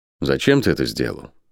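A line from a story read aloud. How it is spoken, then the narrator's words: Quiet question. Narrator (Russian): тихо спросил Рат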